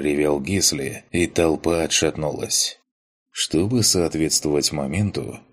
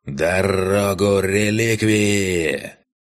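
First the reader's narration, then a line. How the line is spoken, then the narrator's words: Dry booming command over crowd. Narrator (Russian): Перекрывая удивленные возгласы зевак, сухо, как выстрел, прогремел над площадью голос сотника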